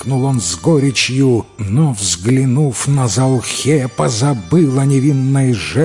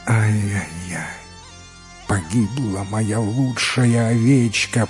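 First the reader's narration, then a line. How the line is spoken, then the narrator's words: Moaning. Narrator (Russian): простонал Асо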